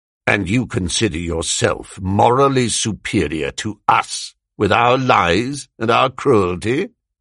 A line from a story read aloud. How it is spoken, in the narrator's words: His manner changed, and he said more harshly